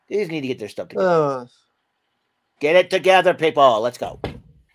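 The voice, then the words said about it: Cartoon character impression. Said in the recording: “my Cartman impression”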